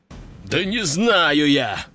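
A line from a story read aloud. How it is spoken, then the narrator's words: Growled. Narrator (Russian): рыкнул мужчина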